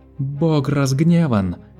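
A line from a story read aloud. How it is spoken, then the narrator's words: Several voices shouting. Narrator (Russian): кричали некоторые из них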